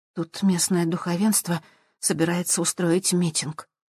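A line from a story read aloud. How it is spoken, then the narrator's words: Tired whisper. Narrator (Russian): устало прошептала Сьюзан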